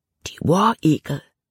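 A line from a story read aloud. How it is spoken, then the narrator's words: Whisper. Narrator (German): flüsterte Jordan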